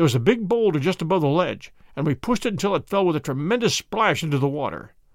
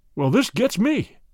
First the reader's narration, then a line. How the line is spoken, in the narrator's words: cried the inspector